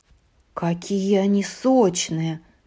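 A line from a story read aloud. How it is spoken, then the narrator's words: Muttering. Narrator (Russian): бормотала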